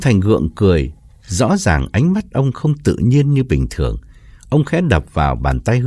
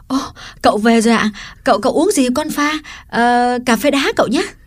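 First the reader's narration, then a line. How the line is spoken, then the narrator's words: Cheerful exclamation. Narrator (Vietnamese): Liễu reo lên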